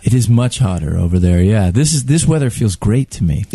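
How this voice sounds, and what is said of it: American accent. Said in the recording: “I'm detecting an accent. You're from the United States of America.”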